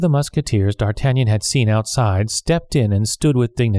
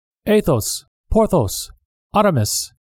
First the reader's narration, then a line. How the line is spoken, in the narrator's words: The captain of the musketeers called out